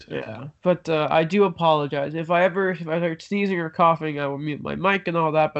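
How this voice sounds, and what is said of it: Sick, deeper voice than normal. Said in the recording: “I'm sick and my voice is a bit deeper than normal.”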